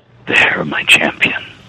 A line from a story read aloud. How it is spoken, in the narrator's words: Mistra whispered as tenderly as any mother